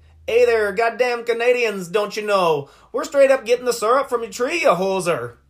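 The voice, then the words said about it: Bad put-on Canadian accent. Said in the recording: “that's a terrible fucking accent”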